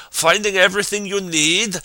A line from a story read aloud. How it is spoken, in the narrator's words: Cadil howled above the tumult